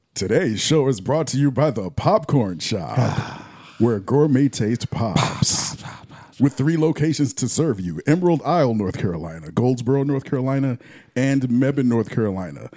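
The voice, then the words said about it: Radio announcer voice. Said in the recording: “announcer voice? ... Yes, use your announcer voice, man. ... Get in character, man”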